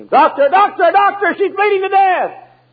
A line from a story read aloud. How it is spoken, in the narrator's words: the nurse began to scream